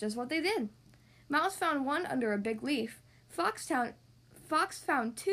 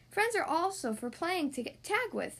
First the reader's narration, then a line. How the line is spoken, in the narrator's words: laughed Squirrel as he raced off through the leaves